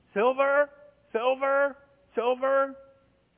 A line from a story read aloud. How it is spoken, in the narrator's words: a lame man that's been there every day from birth cries out